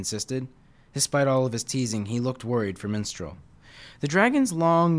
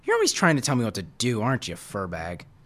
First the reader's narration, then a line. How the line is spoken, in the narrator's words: Minstrel snorted